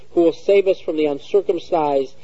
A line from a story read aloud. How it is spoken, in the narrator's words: the parents cried out bitterly and harshly